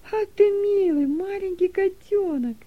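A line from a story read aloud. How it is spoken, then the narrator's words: Joyful exclamation. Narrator (Russian): радостно воскликнула Дилека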